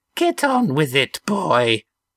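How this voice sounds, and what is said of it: Squeaky, petulant old man's voice. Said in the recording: “the squeaky voice of a petulant old man”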